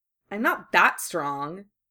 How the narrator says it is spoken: Harry snapped irritably

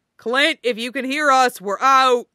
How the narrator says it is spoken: Steve yelling

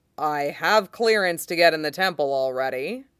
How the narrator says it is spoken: he says blandly

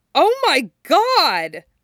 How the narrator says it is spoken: Styles exclaims, loud enough that he hears several of the pack jolt awake in the next room

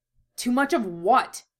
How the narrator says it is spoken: snapped, not caring that his words echoed in the quiet room

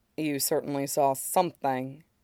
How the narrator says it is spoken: says quietly

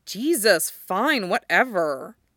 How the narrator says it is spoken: Jackson snaps

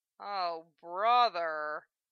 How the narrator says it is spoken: Lena grunted

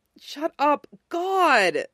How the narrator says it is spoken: Peter said, glancing nervously around

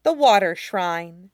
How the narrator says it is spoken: Riju says grimly

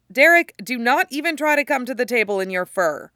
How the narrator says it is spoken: Styles shouts

